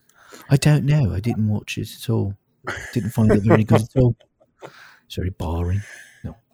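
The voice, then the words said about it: Put-on British accent, possibly poor. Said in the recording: “that's ... doing the accent ... to any of our British listeners ... I'm sure it's terrible.”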